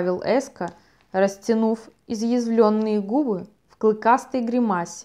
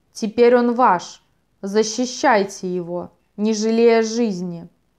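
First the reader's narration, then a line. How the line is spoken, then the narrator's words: Crowd's frenzied roar. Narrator (Russian): гости громко вскричали, неистового рева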